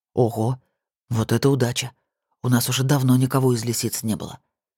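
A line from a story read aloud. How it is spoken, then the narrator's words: Whispered in ear. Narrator (Russian): прошептал Сергей на ухо Алисе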